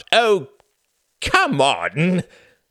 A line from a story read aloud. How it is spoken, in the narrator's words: Reginald laughed